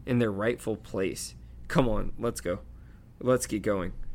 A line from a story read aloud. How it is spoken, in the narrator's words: whispered Hermione